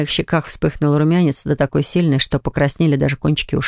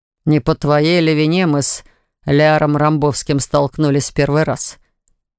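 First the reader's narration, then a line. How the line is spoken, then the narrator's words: Snorting. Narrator (Russian): Хмыкнул Дарт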